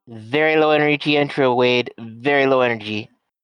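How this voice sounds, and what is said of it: Imitates another person's voice. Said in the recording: “That is a one, Donald Cheeto God Trump ... that was the impression you were going for”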